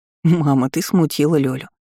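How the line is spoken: Snort. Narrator (Russian): хмыкнул Кайден

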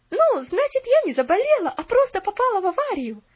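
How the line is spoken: Relieved exclamation. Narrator (Russian): с облегчением воскликнула Поллианна

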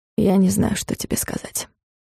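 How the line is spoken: Hoarse whisper. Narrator (Russian): хриплый шепот

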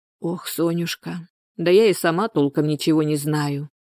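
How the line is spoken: Sighing. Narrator (Russian): вздохнула Анфиса

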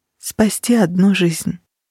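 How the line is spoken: Soft. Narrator (Russian): мягко сказала Кира

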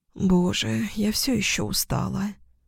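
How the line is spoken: Mumble. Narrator (Russian): пробормотала она

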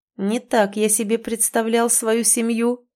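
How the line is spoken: Ringing laugh. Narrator (Russian): звонко рассмеялся Скай

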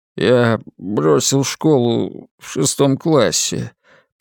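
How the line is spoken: Mumbled. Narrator (Russian): промямлил Ллойд

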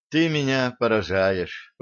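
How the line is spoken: Sighing. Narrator (Russian): вздохнула Габи

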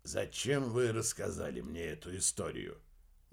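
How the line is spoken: Quiet inquiry. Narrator (Russian): негромко осведомился Грау

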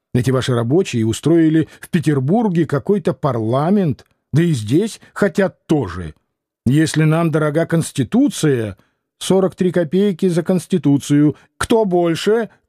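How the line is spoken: Shout. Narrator (Russian): крикнул Лютов

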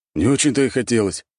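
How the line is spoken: Grumbling mutter. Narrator (Russian): пробурчал Левша

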